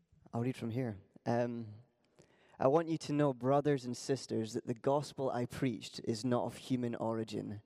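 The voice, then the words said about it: Scottish accent. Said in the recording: “he's got a Scottish accent, so you need to tune in to be able to understand it”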